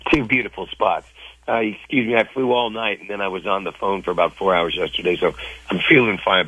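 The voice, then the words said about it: Worn-out, strained voice. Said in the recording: “my voice is pretty shot.”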